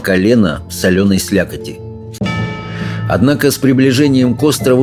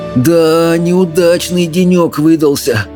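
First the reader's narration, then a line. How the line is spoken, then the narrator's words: Groaning. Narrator (Russian): простонал Рыбьенок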